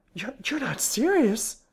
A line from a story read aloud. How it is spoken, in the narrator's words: she cried